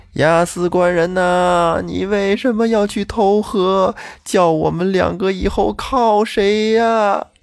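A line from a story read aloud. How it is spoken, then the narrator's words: Crying, wailing. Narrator (Chinese): 他这一哭闹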